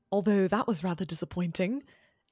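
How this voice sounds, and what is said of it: Attempted posh English accent. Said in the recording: “attempting to do all of these quotes in a posh English accent? ... Will it go well? Probably not.”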